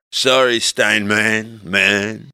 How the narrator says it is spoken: I slurred

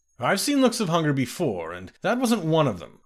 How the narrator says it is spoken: laughed Gyna

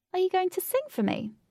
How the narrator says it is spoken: Katie asked playfully

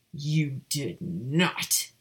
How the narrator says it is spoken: Cygnus growled at his daughter

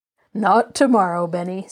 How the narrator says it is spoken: said his grandfather, laughing

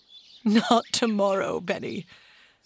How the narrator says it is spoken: said his grandfather, laughing

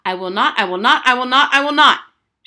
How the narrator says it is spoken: shouted Harriet at the top of her lungs

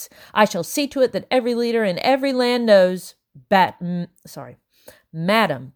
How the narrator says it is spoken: Bellingham said sternly

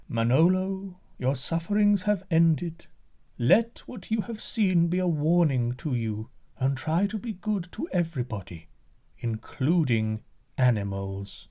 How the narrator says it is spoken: They said to him in a melodious voice

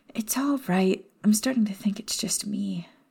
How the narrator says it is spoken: commented with a sigh

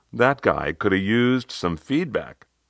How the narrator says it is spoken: As we all laughed, called out

